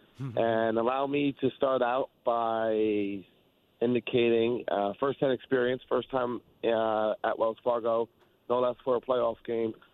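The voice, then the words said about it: Raspy voice. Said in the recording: “as you can hear in my raspy voice.”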